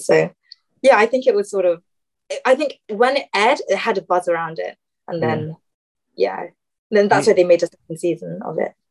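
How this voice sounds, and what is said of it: British accent. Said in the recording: “I assume you're from the United Kingdom just based on your accent”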